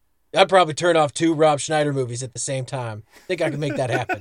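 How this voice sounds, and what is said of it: Usual voice. Nothing is said of it.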